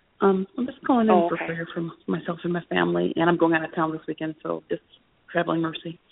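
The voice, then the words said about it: Whispering. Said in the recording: “I'm whispering because I'm at work.”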